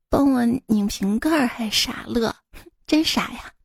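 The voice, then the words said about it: Tiny, very soft voice. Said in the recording (Chinese): “细若蚊足的声音说”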